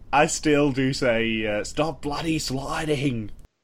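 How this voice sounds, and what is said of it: Put-on Australian accent, done well. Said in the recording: “You do it very well. ... I'm well versed in the Australian accent.”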